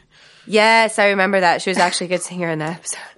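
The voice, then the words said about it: Sick, unusually low deep voice. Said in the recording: “I'm still sick. So I've got my, deep man voice ... my sexy voice ... My voice is definitely lower than it normally is”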